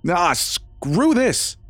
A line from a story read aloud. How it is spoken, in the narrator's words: yelled, seeming to grow more agitated by the second